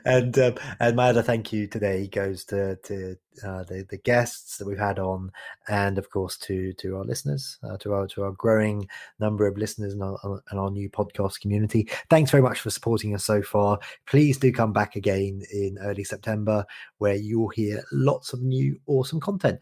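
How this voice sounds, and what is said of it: Sophisticated-sounding accent. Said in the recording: “I love your accent. It just makes me think that I'm sophisticated”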